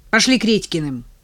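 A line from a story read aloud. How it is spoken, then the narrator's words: Sharp, self-annoyed command. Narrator (Russian): Сердясь на себя за непредусмотрительность, я довольно резко велела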